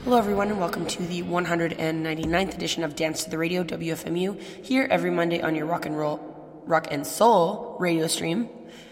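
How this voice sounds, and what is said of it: Slightly hoarse voice. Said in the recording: “I'm still a little hoarse in the throat, but my voice is slowly getting better”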